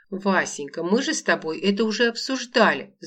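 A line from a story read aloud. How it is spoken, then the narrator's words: Babbling. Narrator (Russian): залепетала Лола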